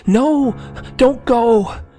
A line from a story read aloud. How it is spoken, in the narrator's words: I cried out